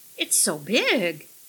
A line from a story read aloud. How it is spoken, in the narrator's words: Millie gasped